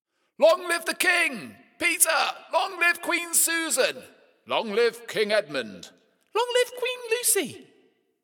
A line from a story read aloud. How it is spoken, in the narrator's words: deafening shouts of